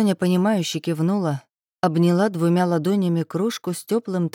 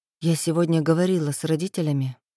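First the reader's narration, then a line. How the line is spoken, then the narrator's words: Quiet. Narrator (Russian): негромко начала она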